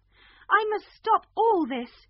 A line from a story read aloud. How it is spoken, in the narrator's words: she cried